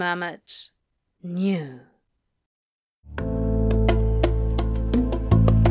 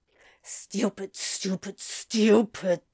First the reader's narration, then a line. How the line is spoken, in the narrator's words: he muttered under his breath